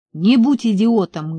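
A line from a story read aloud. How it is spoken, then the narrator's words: Barking shout. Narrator (Russian): гаркнул я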